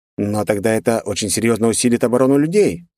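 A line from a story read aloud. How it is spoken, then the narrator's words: Thoughtful. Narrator (Russian): задумчиво произнес Кульнар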